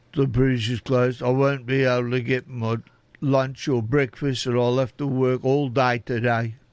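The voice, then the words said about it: Imitates another person's voice. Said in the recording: “that's a bad impersonation”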